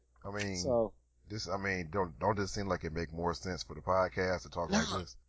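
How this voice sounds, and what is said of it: Deliberately deepened voice. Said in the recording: “You like my deeper voice, or you wanted me to go back to my normal one? ... all of a sudden I got a deep voice ... I need to have a deeper voice”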